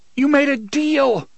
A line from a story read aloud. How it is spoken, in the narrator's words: the boy screamed after him